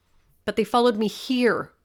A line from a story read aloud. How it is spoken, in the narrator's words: said as my voice continued to rise